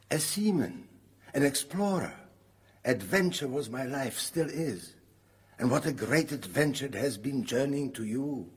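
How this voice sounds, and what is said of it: Foreign accent. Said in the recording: “You speak with a foreign accent.”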